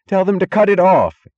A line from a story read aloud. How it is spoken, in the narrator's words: screamed Wesley Mooch